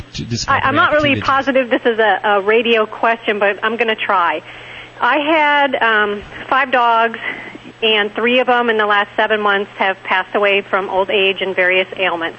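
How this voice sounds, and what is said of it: Wisconsin American accent. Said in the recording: “I love your voice. Are you from Texas? ... I'm from Wisconsin originally, which is what my accent is.”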